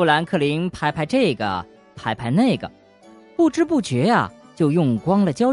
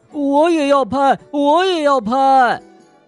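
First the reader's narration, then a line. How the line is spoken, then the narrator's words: Small animals shouting loudly. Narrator (Chinese): 小驼鹿和小兔大声喊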